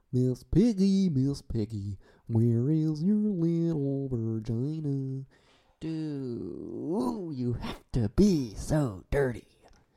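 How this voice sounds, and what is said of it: Kermit the Frog character voice. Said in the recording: “This is me performing Kermit the Frog.”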